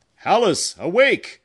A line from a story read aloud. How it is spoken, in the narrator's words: cried her father